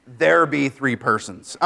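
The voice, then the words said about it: Pirate accent. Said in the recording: “I always read that with a pirate accent.”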